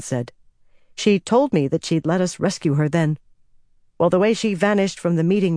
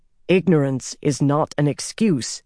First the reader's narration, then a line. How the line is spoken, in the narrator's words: Bryn said sternly